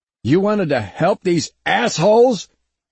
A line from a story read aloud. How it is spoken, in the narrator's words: Bama roared